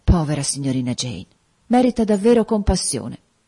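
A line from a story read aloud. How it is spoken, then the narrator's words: Sighing. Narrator (Italian): Bessie sospirò, dicendo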